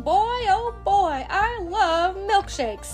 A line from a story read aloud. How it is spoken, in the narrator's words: Toby shouts